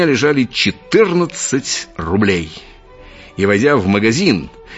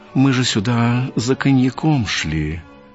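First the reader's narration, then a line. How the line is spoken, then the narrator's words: Timid. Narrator (Russian): Мой приятель робко сказал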